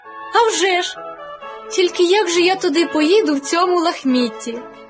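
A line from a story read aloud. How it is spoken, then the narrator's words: Girl sighing. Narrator (Ukrainian): зітхнула дівчинка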